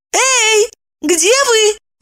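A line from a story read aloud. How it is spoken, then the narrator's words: Exclaimed. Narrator (Russian): воскликнула Евдокия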